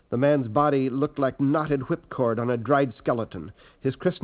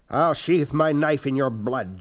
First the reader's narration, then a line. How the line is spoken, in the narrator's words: Jameis snarled